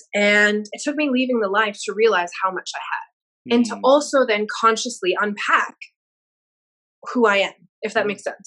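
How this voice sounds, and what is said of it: Mixed American and Australian accent. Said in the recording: “my random accent. I'm originally from Chicago, but I've lived in Australia for 15 years”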